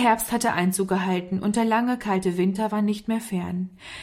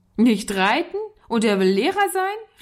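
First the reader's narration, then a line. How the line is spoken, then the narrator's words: Laughing boy calling. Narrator (German): rief der Junge lachend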